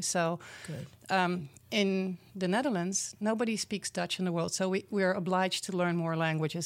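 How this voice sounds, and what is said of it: Non-American foreign accent. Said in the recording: “I'm a foreigner, I stopped working on my accent to make it more American ... I want people to know that I'm not from here”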